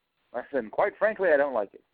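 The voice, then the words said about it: Put-on British accent. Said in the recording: “That's more of a British accent.”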